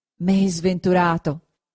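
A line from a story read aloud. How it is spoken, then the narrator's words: Anguished exclamation. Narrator (Italian): esclamò il Signore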